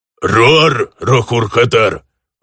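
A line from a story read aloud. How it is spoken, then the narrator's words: Orc growling. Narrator (Russian): рыкнул орк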